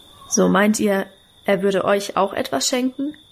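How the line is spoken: Plain. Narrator (German): fragte er

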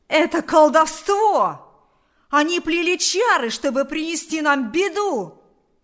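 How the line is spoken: Shouted. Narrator (Russian): закричал Кузька

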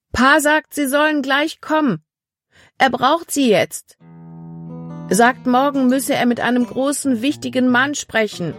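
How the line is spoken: Calling across a distance. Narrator (German): rief ihnen vom anderen Ufer des Baches aus zu

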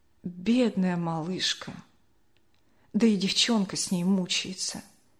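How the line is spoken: Quiet lament, old woman. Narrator (Russian): бабушка Ксения тихо запричитала

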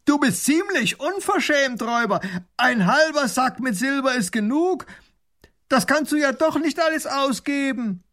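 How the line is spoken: Calling across. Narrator (German): ruft hinüber

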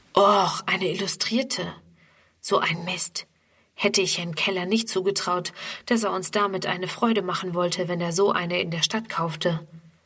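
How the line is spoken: Murmuring to friend. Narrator (German): raunt Friedemann seinem Freund Ernst zu

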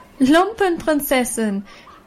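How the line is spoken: Mocking group shout, ringing laughter. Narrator (German): riefen die anderen und lachten, dass es schallte

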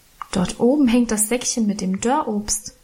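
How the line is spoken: Plain. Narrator (German): sagte ich

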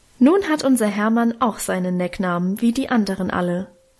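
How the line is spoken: Plain. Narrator (German): sagte Mutter gerade

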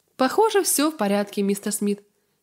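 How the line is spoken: Plain. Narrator (Russian): сказал наконец Калем

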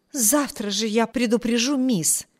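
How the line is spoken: Exclaiming. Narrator (Russian): воскликнула Энн

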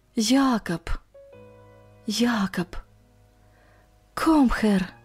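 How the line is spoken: Barely audible German whisper. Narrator (Russian): чуть слышно шепча по-немецки

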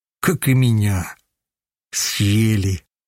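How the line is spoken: Heavy sigh. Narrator (Russian): Вздохнул тяжело

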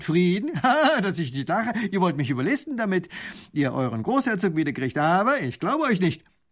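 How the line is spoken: Lieutenant laughing scornfully. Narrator (German): lacht der Leutnant

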